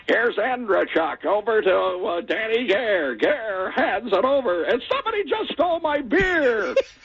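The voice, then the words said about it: Imitates a sports play-by-play announcer. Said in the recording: “I'm going to try to do my best impression of him”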